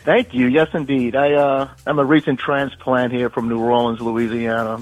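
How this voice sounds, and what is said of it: New Orleans accent. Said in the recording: “I like that accent.”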